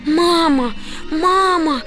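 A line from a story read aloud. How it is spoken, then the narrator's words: Shouting. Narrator (Russian): закричала Тамарочка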